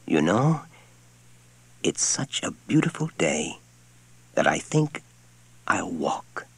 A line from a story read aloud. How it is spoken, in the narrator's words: he said in a soft voice